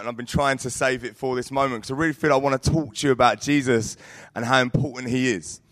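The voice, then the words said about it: Croaky, hoarse voice. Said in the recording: “my voice is quite croaky”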